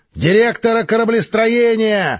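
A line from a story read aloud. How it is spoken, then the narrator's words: Yelling into comm device. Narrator (Russian): заорал в устройство связи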